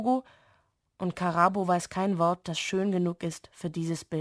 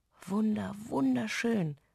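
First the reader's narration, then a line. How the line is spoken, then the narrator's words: Whispering. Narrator (German): flüstert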